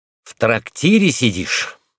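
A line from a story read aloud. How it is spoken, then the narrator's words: Irritated. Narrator (Russian): раздраженно сказал парикмахер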